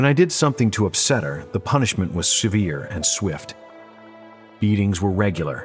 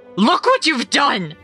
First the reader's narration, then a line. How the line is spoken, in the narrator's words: she screamed into my ear, her shrill tone cutting into my brain